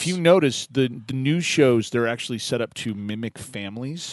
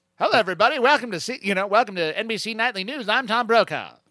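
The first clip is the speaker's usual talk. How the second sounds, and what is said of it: Mid-Atlantic newscaster accent. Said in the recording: “my Atlantic voice ... understandable by both people in the UK and in the United States ... that accent ... this fantastic accent ... Like that.”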